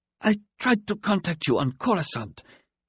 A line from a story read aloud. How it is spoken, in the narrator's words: the black-eyed alien began in a weak voice